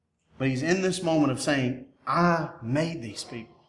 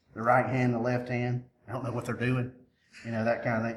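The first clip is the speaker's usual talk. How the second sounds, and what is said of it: Poor George W. Bush impression. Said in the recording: “That's a terrible George W. impersonation.”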